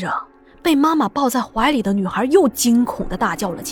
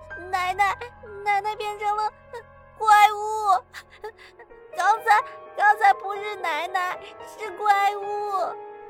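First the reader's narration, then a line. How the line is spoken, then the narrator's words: Child crying. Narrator (Chinese): 小女孩边哭边说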